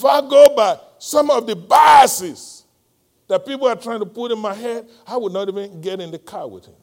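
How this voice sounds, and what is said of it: Nigerian accent. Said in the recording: “I noticed your accent. ... I'm from Nigeria.”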